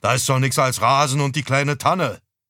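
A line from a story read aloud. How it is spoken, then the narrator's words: Father raising voice. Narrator (German): Vater wurde laut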